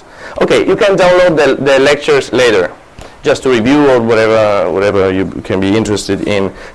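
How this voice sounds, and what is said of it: Very nasal, accented voice. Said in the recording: “my beautiful voice with my... Yeah, very nasal actually ... with that voice and this accent”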